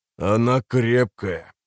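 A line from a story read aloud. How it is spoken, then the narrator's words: Hoarse grumble. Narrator (Russian): проворчал тот, что с хриплым голосом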